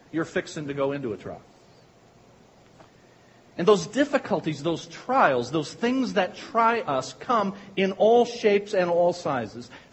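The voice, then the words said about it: Pikeville regional accent. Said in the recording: “I say with my Pikevillian accent”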